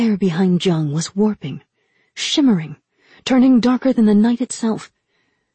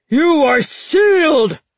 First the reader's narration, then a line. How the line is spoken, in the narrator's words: the general bellowed